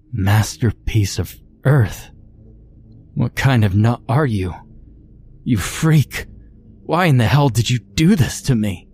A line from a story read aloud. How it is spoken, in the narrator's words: Sarah cried, the shock of it all sinking in finally